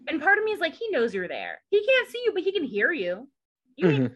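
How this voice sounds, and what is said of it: Southern American accent. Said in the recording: “My southern accent comes out”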